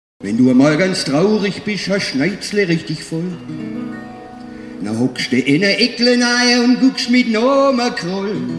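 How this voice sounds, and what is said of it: Swabian dialect. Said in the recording (German): “Mundart Radio. Radio. Für alle, die Schwäbisch mögen.”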